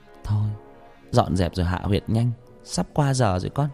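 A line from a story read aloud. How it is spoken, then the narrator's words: Muttering. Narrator (Vietnamese): Bà lẩm bẩm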